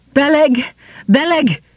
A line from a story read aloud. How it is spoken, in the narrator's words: he cried